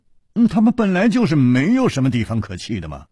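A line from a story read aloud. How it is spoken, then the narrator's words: Sighing. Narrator (Chinese): 楚留香叹了一口气说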